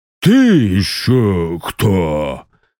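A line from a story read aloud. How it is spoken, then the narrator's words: Hussar roaring. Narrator (Russian): взревел гусар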